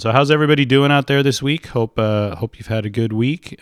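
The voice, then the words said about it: Rough, sore-throated voice. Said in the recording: “apologize for my voice ... I've been dealing with a little bit of a cold ... it's just kind of settled in my throat”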